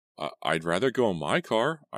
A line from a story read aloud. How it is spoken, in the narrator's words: I stammered